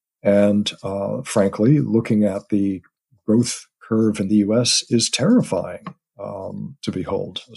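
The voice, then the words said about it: American accent. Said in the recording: “My family is, as you can tell from my accent, over in the U.S.”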